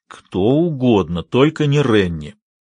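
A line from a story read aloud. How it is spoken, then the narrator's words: Growl. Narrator (Russian): прорычал Эрни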